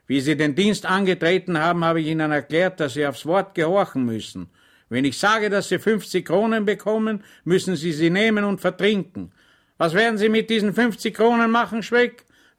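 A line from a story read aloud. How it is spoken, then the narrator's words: Stern officer. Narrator (German): sagte der Oberleutnant streng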